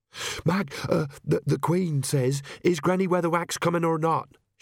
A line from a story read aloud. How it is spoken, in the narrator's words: she panted